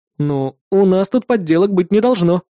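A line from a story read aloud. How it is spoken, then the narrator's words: Snorting. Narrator (Russian): хмыкнул я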